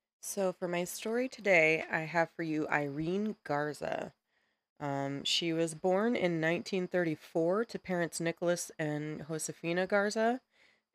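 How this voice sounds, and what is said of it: Sick-sounding voice. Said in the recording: “I apologize for my voice. I am a little bit sick”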